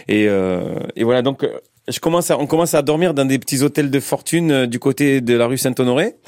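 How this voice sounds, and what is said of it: Strong Marseille accent. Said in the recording (French): “accent marseillais à couper au couteau ... j'ai un accent assez, assez prononcé”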